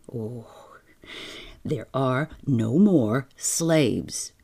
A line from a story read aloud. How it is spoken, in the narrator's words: he said irritably